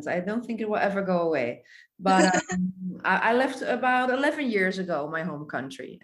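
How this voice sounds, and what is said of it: Strong Dutch accent. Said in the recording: “I thought I heard an accent ... it's a strong accent ... I'm from the Netherlands, from Europe”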